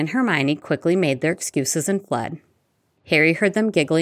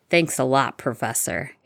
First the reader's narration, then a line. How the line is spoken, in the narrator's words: Harry said dryly